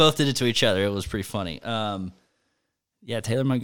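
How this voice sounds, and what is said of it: Usual voice. Nothing is said of it.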